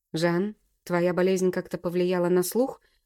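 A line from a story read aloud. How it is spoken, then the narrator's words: Rough question. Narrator (Russian): грубо спросил я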